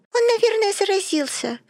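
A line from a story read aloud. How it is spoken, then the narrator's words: Squeaky, hard-of-hearing woman. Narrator (Russian): пропищала глуховатая Вива Кернштейн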